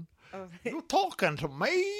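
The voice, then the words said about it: Odd squawky parrot-like voice. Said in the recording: “I don't know what accent I did then. ... It sounded like a parrot. ... that doesn't even sound like a parrot ... He's turned into a chicken now.”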